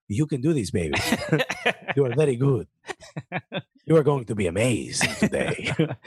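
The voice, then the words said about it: Sweet whispered Spanish accent. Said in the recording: “very sweetly with a Spanish accent, whispering”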